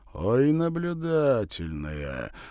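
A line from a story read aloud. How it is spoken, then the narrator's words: Respectful drawl. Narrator (Russian): протянул Кузя уважительно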